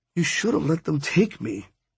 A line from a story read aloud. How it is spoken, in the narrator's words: she mumbled